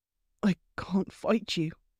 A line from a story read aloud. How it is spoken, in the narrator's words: he murmured against her mouth